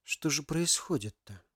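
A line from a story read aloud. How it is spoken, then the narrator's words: Whispered question. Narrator (Russian): шепотом задал вопрос Ярослав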